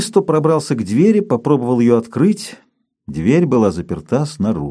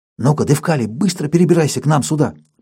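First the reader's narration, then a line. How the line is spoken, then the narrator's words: Urgent whisper. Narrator (Russian): прошептал Павлыш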